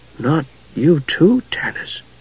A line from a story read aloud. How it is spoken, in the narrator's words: Tass said in a small voice